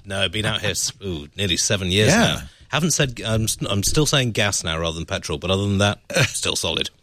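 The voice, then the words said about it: Posh British RP accent. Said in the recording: “Probably Posh RP ... Posh RP. I thought it was kind of posh. It sounded a little Sloan Ranger-y.”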